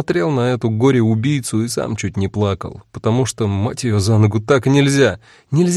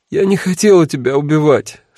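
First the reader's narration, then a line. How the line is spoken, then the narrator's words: Tearful voice. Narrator (Russian): сквозь слезы сказала Агата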